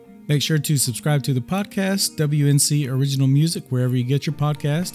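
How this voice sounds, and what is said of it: Hoarse, strained worn-out voice. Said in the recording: “my voice is about fried, probably from all the holiday screaming”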